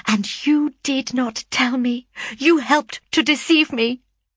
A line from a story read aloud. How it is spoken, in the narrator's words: cried he with bitter vehemence